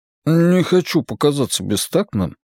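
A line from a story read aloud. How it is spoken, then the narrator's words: Mumbled. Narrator (Russian): пробормотал Джеспер Уайлену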